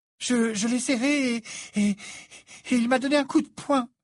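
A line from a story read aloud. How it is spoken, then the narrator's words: Breathless exclamation. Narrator (French): s'exclama-t-elle, le souffle coupé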